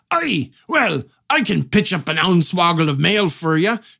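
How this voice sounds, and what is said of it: Put-on Scottish blacksmith accent. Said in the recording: “They put on a Scottish accent because blacksmiths always have a Scottish accent ... in America, blacksmiths have Scottish accents, though technically it's this weird Scots-Irish hybrid accent”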